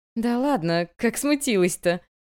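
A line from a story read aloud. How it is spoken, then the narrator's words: Laughing. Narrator (Russian): засмеялась она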